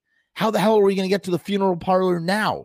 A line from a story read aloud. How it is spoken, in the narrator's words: Scuzz cried